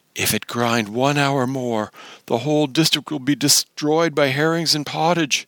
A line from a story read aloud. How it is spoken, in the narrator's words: he begged him, for God's sake, said he